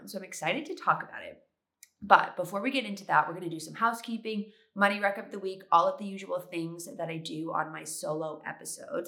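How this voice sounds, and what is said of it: Congested, sick-sounding voice. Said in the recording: “I think I have allergies, so I'm a little congested. My voice is kind of weird ... in the hopes that I would stop sounding as sick as I sound. But unfortunately, I still sound sick”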